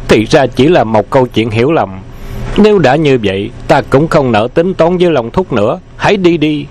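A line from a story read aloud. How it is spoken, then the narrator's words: Sudden laugh while speaking. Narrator (Vietnamese): Dương Hư Ngạn bỗng bật cười nói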